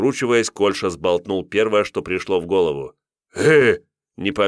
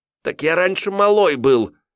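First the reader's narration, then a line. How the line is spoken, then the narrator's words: Youth's angry snarl. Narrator (Russian): Отрок зло ощерился и бросил, опять же, на зло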